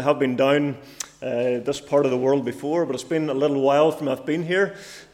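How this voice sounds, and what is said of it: Northern Irish accent. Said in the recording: “I'm from Cookstown, by the way, in case you're wondering. Uh, it's not a local accent. It's from from up north.”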